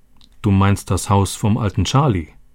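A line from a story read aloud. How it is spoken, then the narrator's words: Plain. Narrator (German): sagte er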